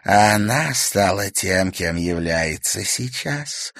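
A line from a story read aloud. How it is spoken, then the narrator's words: Spiteful. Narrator (Russian): злобно закончила за нее Ирма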